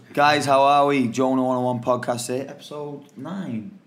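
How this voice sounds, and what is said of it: Soft mellow speaking tone. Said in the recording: “my voice is too loud. So I went for a nice mellow tone.”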